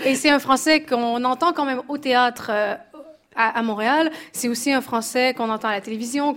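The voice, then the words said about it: Québécois French accent. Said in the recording (French): “cet accent magnifique québécois”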